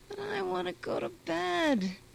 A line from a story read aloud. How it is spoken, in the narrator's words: whimpered Stepa